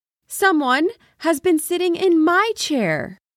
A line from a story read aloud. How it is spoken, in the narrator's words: cried out in her medium-sized voice